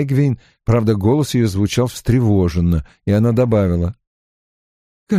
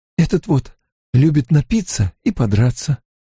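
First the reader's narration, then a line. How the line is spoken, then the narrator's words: Quiet speech. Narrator (Russian): тихо произнесла Эгвин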